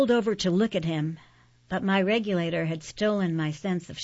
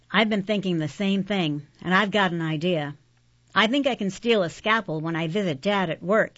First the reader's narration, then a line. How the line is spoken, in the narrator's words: he said